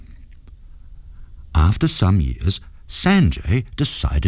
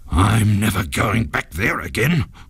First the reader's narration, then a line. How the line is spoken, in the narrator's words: growled the ghost in a very bad temper